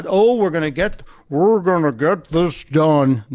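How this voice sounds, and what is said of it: Imitates another person's voice. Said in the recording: “worst Mitch McConnell impression”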